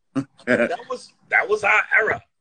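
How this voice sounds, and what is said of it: Imitates another person's voice. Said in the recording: “I have a Chris Rock accent.”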